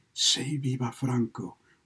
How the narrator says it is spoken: she answered and whispered

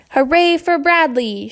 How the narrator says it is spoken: shouted the wooden hippopotamus

